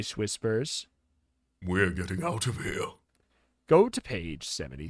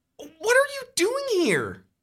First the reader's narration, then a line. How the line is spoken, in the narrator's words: You exclaim